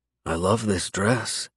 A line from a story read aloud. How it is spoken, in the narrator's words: smile, forgetting all about her dick of a dad as I walk up to her, slide my arm around her waist, and pull her close as I whisper